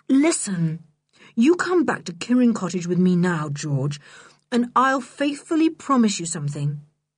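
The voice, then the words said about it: Gentle, soft-spoken delivery. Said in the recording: “in a gentle voice”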